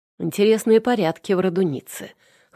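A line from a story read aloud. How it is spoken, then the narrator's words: Smirking grunt. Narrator (Russian): хмыкнул Павел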